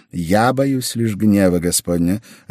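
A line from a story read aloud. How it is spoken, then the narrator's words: Plain. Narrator (Russian): ответил тот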